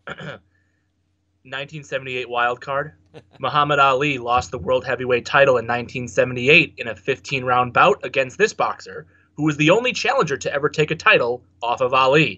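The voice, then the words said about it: Flat monotone quiz-reading voice. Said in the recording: “let me get my monotone out.”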